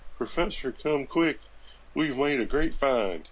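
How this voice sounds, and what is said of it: Put-on redneck accent. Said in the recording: “I don't know why they're rednecks ... that's a very odd accent for Indians”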